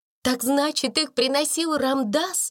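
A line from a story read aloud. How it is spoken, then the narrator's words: Exclaiming. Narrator (Russian): воскликнула она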